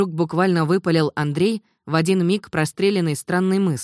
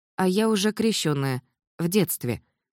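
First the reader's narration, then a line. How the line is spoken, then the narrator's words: Calm reply. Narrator (Russian): спокойно ответила комсомолка Варя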